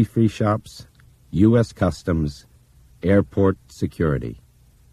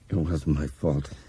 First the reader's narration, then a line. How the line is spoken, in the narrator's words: he muttered